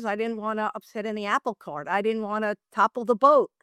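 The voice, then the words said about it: New York accent. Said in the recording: “a New York accent”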